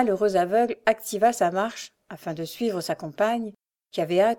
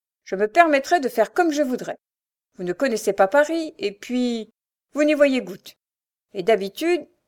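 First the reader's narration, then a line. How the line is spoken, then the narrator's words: Bitter sneer. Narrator (French): ricana-t-elle avec aigreur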